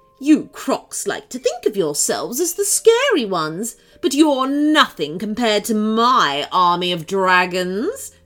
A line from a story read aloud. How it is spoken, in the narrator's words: she chuckled